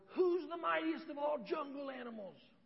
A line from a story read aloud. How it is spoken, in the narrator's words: he roared